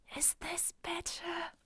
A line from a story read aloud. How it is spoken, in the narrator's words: Moon tries to, like, telepathically whisper